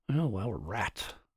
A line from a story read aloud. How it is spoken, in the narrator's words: Martin muttered